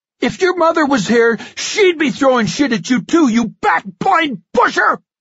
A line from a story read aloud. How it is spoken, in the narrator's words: I screamed